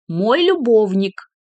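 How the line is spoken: Loud clear repetition. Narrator (Russian): громко и четко повторила она

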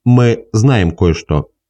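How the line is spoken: Usual everyday tone. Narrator (Russian): сказал он обычным своим тоном

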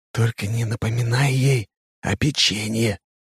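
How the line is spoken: Whispered request. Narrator (Russian): прошу я шепотом

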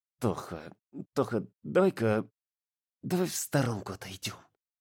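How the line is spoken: Ashamed hiss through teeth. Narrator (Russian): Сквозь зубы прошипел пунцовый от стыда Жан

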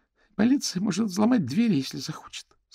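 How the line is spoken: Trembling voice. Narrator (Russian): сказала Альма дрожащим голосом

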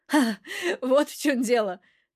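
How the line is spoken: Light chuckle. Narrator (Russian): слегка хохотнул Кульков

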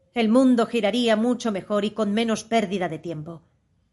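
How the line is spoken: Growled. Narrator (Spanish): dijo la duquesa en un gruñido

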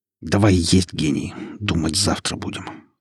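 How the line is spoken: Through gritted teeth. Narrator (Russian): сказал я сквозь зубы

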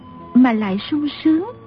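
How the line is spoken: Gentle girl's voice. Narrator (Vietnamese): Thiếu nữ dịu dàng nói

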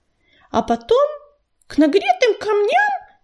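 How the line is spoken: Indignant interruption. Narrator (Russian): перебила его Белочка, возмущенно вытаращив глаза

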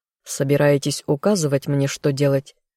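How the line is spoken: Growl. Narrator (Russian): рыкнул Азазель

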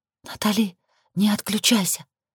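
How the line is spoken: Whisper. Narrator (Russian): зашептала Лилит

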